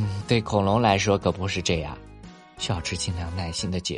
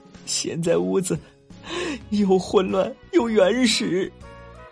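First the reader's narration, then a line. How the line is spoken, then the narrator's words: Crying. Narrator (Chinese): 妈妈边哭边说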